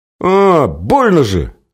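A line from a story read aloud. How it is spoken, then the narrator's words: Child's yell. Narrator (Russian): завопил мальчик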